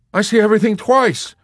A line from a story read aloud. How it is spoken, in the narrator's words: the soldier who saw everything twice shouted